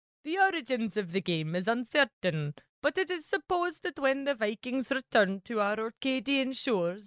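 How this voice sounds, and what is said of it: Put-on Orkney accent. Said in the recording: “my accent is tippy-toppy ... Pretty good, right?”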